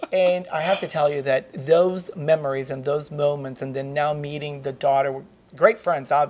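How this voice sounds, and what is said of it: Usual voice. Nothing is said of it.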